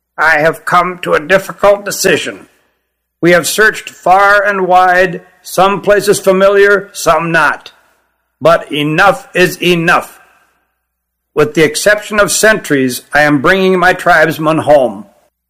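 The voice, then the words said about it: Stern, reedy female character voice. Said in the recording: “went on sternly in her reedy voice”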